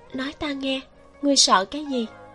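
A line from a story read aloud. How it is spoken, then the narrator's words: Very soft gentle question. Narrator (Vietnamese): dùng âm thanh nhu hòa nhất hỏi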